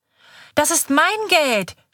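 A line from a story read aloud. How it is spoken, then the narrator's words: Shouting, starting to cry. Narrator (German): schreit Kaiser und beginnt zu weinen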